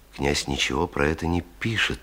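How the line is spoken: Quiet. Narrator (Russian): тихо сказал он

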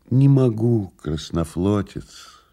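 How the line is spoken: Sad. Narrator (Russian): грустно сказал Илья Андреевич

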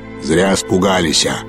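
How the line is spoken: Sudden deep bass from behind. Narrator (Russian): пробасил неожиданно кто-то за его спиной

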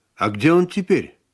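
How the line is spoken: Plain. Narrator (Russian): спросила Марина

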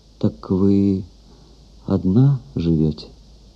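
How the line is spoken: Timid, gentle question. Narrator (Russian): робко, боясь сделать ей больно, спросил

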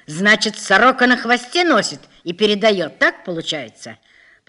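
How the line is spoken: Angry shouting. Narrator (Russian): Полковник разозлился, кричал

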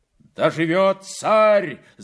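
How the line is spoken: Shouting crowd of men. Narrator (Russian): закричали разбойники

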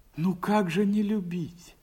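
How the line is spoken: Joyful, surprised. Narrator (Russian): сказал Васька радостно и удивленно

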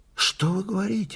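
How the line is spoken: Agitated. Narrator (Russian): сказал он взволнованно

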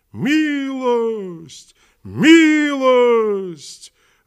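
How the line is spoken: Joyful chanting army. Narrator (Russian): радостно повторяло все войско

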